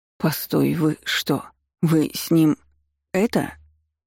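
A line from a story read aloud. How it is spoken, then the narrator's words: Shocked, forced out, girl. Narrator (Russian): Потрясенно выдавила из себя девушка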